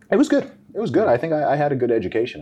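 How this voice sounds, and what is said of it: North American-sounding accent. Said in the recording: “the reason I have the accent that I do is because I was essentially in the American school system, taught by American teachers and surrounded by a lot of North Americans”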